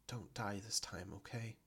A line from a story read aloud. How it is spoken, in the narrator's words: saying softly